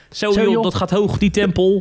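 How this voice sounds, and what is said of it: Martin van Waardenberg impression, Rotterdam accent. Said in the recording (Dutch): “Martin van Waardenberg ... op zo'n lekkere Rotterdams accent”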